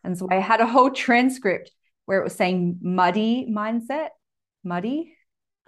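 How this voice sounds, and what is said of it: Speaks with a noticeable accent. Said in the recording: “sometimes they don't understand my accent ... Listen to my accent.”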